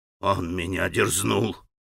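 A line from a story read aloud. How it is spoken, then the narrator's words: Grim, deliberate enunciation. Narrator (Russian): мрачно и раздельно произнес Григорий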